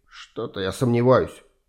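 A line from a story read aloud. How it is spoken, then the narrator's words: Grumbling while hurrying. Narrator (Russian): ворчал, стараясь не отставать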